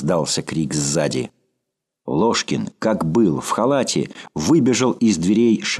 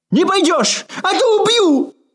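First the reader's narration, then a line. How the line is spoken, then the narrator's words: Shouted. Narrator (Russian): закричал Ложкин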